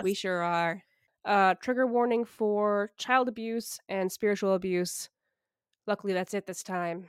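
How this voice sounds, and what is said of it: Nasal, scratchy sick voice. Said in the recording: “my voice sounds nasally or scratchy, I wasn't kidding about the flu thing. I still kind of am sick”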